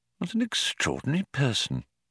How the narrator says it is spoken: he muttered to himself

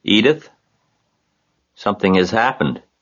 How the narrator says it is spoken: he said in a weak voice

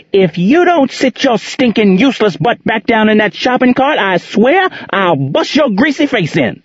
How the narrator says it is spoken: she screamed at the 3-year-old

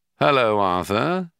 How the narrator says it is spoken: said the shadow

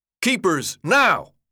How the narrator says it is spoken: Albie shouted

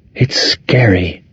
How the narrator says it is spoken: Kathy whispered

